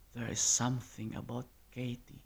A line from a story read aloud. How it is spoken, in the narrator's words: whispered